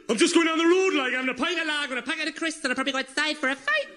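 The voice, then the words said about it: Put-on Geordie accent, rising pitch. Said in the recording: “very easy to do a Geordie accent... start off hard as nails, end up terrified... I started off like that, hard as nails, and then halfway through the sentence, I started running out of breath. I got high-pitched”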